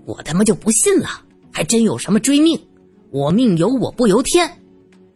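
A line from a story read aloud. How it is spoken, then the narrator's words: Furious. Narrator (Chinese): 他怒气冲冲的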